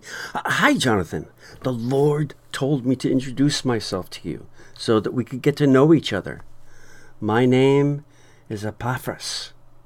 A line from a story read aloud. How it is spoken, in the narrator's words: a man ran up beside him and said excitedly